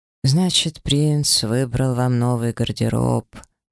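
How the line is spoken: Drawl. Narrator (Russian): протянула Шашхар

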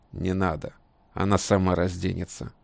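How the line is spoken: Wolf's growl. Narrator (Russian): рыкнул волк

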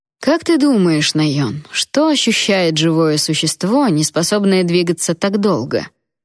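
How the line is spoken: Menacingly gentle drawl. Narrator (Russian): Угрожающе ласково протянул он

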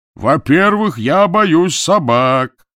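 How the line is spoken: Coachman shouting from darkness. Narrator (Russian): кричал кучер из темноты

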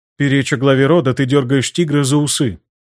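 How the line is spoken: Level, even voice. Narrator (Russian): произнесла она ровным голосом

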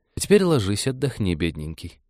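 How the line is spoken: Gentle cooing. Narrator (Russian): ласково проворковал Вениамин

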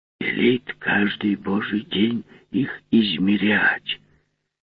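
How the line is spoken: Mysterious whisper. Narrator (Russian): таинственно шепнул он плотнику

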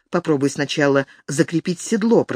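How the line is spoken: Whispered. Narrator (Russian): прошептала Алина

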